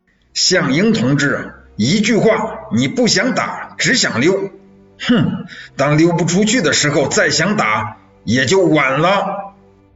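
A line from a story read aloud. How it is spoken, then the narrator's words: Loud shouting. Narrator (Chinese): 叶挺在高叫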